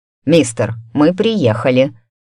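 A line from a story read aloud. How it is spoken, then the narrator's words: Irritated. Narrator (Russian): раздраженно произнес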